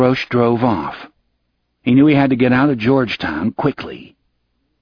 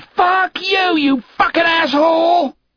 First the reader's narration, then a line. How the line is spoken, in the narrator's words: The student screamed